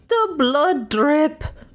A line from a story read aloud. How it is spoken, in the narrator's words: the old man called out